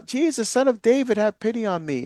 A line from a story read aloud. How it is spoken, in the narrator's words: he cries out